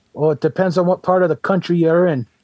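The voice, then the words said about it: Boston accent. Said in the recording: “Santa had like that Boston accent”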